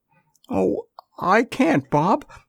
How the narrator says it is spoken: she sobbed

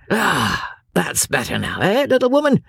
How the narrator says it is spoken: He said, with a sigh of satisfaction

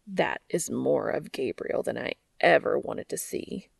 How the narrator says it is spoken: he groans

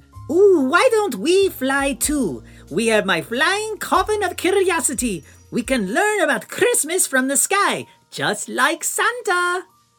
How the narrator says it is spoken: Drac, struck by a sudden idea, exclaimed

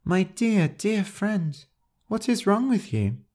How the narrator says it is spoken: Crush sighed deeply

